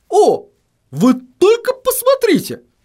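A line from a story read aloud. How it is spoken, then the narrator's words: Astonished exclamation. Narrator (Russian): воскликнул он, словно чему-то крайне удивившись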